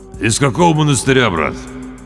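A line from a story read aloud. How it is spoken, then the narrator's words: Curt mutter. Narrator (Russian): она буркнула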